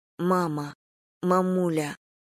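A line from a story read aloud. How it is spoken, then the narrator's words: Sob. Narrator (Russian): Она всхлипнула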